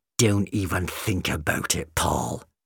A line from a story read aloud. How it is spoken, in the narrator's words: she spat